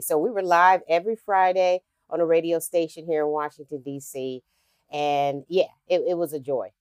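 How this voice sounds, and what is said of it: Smooth radio-style broadcaster voice. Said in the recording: “you already have that radio voice”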